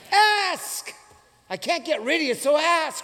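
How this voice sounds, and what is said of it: Yelling. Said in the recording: “Because there's an exclamation mark there. That's why I'm yelling.”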